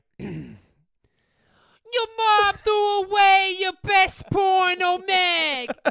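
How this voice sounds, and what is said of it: Brooklyn-accented Beastie Boys impression. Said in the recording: “your Beastie Boys impression ... It's so good ... It's just pure Brooklyn”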